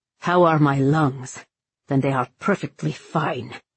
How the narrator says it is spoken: Cullen said impatiently

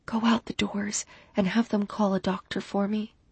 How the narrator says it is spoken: I whispered

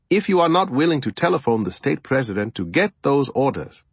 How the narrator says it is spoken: I said coldly

